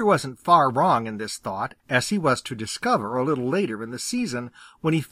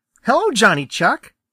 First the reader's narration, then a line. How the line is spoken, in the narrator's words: cried Peter